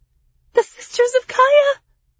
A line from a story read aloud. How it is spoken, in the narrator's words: Lyriana cried